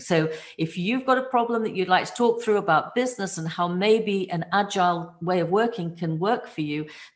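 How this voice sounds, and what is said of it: British English accent. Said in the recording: “I really, really, really love the UK accent. This has been enchanting for me.”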